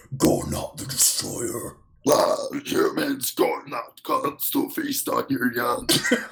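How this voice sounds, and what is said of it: Weird monster character voice. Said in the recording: “what accent was that? ... That was just a weird voice ... It is not giant accent.”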